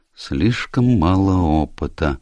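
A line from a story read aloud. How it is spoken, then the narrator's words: Mutter under breath. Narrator (Russian): пробормотала она себе под нос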